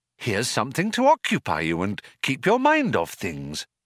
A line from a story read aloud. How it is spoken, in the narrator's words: said Trillian in a bright, compassionate tone